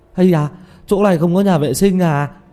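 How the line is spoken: Sudden urgent cry. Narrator (Vietnamese): Tiểu Mã chợt ôm bụng kêu lên

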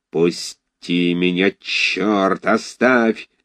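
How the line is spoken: Hoarse wheezing. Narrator (Russian): хрипел Файбиш

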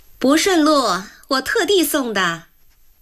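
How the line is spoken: Sudden loud speech. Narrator (Chinese): 梅一朵突然在一边大声说着

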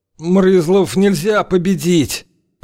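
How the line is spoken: Hoarse rasp. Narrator (Russian): прохрипел

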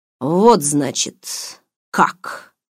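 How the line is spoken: Gloomy. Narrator (Russian): мрачно произнес

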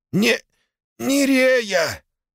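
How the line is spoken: Strained wheeze while struggling. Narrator (Russian): хрипит федерал, тщетно пытаясь выбраться из схватки

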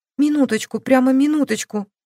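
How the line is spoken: Old woman pleading. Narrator (Russian): Взмолилась бабушка

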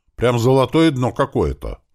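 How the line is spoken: Grumbling. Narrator (Russian): пробурчал Селя из-за руля

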